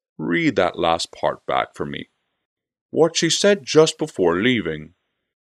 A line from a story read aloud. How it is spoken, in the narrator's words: the Lord Guardian said in a languid voice